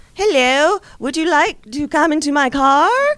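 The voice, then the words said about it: Slow, poor British accent. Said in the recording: “the closest proximity to a British accent that you will hear from her... She sounds like Dick Van Dyke slowed down about, like, half”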